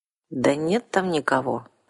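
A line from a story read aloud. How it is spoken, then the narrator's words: Confused objecting vampire. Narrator (Russian): растерянно возразил вампир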